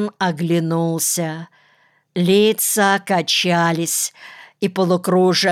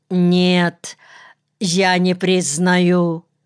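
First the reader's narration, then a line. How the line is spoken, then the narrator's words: Forced out with effort. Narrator (Russian): Арон через силу выдавил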